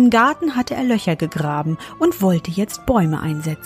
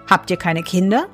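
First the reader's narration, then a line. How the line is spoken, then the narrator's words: Plain. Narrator (German): fragte der Fremde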